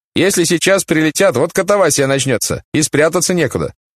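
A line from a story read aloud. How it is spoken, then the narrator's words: Young man shouting. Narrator (Russian): Молоденький паренек, шофер грузовика, крикнул Штирлицу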